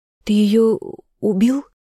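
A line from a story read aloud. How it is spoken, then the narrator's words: Hoarse strained question. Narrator (Russian): сорванным голосом спросила она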